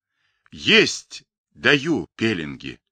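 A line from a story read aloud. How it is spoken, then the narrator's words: Slow, strained reply. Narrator (Russian): С усилием поднимаясь на ноги, медленно ответил Павлик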